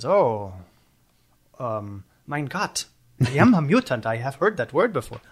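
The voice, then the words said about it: Poor put-on German accent. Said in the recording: “I can't do a German accent, clearly.”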